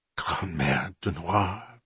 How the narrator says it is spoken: Bonterre whispered

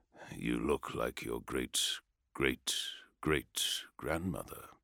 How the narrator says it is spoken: said Perturabo quietly

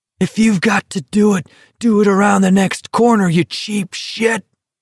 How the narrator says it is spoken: McVries cried

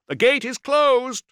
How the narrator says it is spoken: Iarios shouted, triumphant

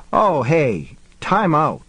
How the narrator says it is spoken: the cop exclaimed

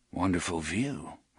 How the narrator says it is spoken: Roland murmured

